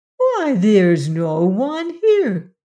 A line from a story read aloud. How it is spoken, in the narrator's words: the cat exclaimed